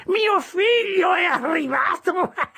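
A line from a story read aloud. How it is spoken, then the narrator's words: Old man's triumphant shout. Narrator (Italian): Il vecchio, seguendo il mio sguardo, gridò trionfante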